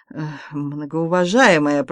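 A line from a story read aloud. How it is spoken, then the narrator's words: Stunned, disbelieving moan. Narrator (Russian): простонал Андрей Андреевич, который не верил своим глазам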